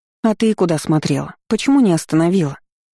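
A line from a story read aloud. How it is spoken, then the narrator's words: Sorrowful sigh. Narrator (Russian): Горестно вздохнула недоразумение с розовыми волосами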